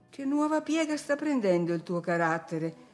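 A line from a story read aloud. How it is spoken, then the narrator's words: Astonished woman exclaiming. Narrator (Italian): esclamò la signora Linton esterrefatta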